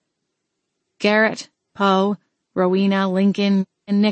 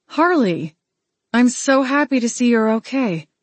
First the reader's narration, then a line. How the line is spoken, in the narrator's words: Imogene exclaimed, beaming